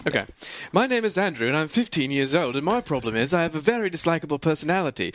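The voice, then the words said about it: Put-on British accent. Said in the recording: “read this in the British accent”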